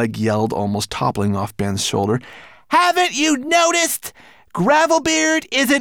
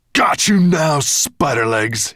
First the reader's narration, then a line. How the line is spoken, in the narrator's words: he growled